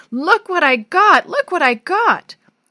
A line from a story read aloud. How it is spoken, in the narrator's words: shouting at the top of his voice